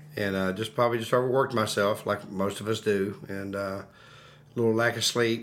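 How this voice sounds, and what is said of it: Sick, deeper-sounding voice. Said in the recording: “a little bit under the weather ... tell in his voice. Actually, your voice sounds a little bit deeper”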